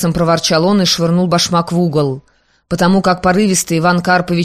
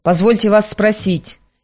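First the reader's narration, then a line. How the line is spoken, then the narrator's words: Sarcastic, sharp. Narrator (Russian): ехидно и резко сказал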